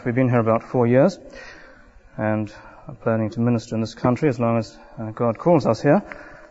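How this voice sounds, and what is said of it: New Zealand accent. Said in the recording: “I come from New Zealand ... trying to figure out your accent”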